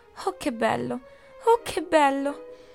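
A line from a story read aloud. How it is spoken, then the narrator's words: Exclaiming with deep sigh. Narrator (Italian): Maria esclamò con un profondo sospiro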